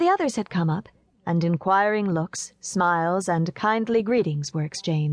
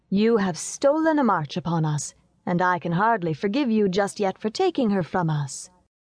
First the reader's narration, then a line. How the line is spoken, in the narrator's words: said Rose, half playfully but with a tear trembling in her eye